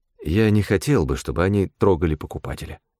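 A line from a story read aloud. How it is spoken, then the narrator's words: Plain. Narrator (Russian): сказал я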